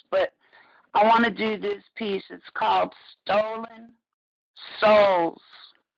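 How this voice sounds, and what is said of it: Hoarse, fading voice. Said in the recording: “as you can hear, I'm kind of losing my voice”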